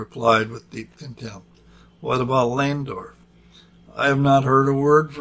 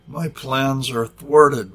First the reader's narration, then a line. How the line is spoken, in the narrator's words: whined Dr